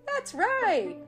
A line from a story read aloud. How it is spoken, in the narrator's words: said Tigger, looking around happily